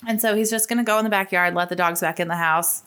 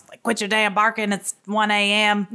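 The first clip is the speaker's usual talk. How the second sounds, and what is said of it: Put-on Houston accent. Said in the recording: “I have a terrible Houston accent.”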